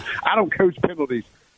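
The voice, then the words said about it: Put-on Southern accent. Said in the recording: “I can use the Southern accent.”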